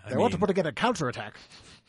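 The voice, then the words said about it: Old-timey put-on accent. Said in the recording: “old-timey accent”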